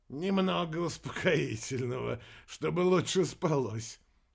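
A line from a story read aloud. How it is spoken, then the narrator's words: Quiet laugh, abrupt tone shift. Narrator (Russian): Тихонько рассмеялся неизвестный и снова резко, как было до этого, сменил тон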